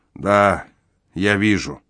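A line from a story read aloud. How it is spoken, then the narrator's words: Gloomy confirmation. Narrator (Russian): мрачно подтвердил он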